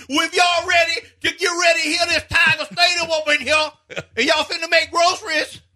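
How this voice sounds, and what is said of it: Brian Kelly's put-on Southern accent. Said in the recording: “he tried to change it ... where's this accent come from?”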